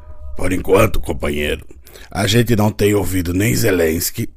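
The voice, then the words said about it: Imitates another person's voice. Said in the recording (Portuguese): “É a pior imitação do Lula”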